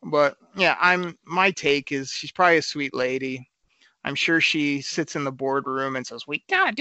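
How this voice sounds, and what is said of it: Usual voice. Nothing is said of it.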